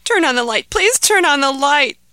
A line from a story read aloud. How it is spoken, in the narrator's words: begged Ahmed